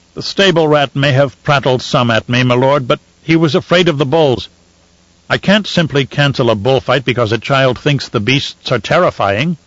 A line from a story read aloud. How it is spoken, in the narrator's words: he snorted